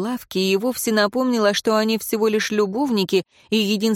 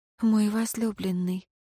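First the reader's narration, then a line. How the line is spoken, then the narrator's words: Woman's whisper. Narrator (Russian): прошептала женщина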